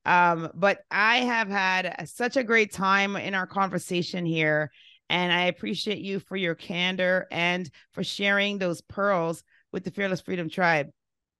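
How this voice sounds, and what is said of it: Hoarse, strained voice. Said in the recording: “My voice is like halfway gone because I have been a screaming banshee of a parent for the last several days ... why does she sound like that? ... That's the reason why I sound like I have a frog in my throat.”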